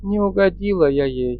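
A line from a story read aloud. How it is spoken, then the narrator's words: Sighing woman. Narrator (Russian): вздохнув, моя невеста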